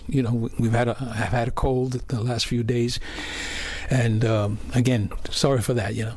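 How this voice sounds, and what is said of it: Slightly hoarse voice. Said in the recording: “apologize for my voice right now. I'm a little hoarse.”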